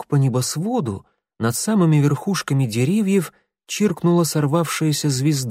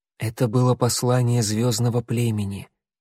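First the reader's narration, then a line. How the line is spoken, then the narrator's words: Quiet. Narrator (Russian): тихо сказала она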